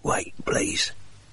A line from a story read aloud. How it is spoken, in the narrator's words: he rasped